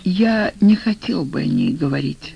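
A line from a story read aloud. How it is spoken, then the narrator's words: Quiet. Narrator (Russian): сказал тихо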